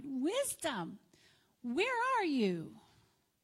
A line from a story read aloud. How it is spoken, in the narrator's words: cried